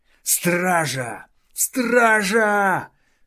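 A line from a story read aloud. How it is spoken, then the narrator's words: Yelling at full volume. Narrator (Russian): заорал, что есть мочи, Тардус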